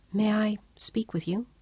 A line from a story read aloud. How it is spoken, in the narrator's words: Claudia said softly